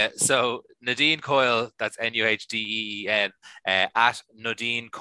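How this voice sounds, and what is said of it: Usual voice. Nothing is said of it.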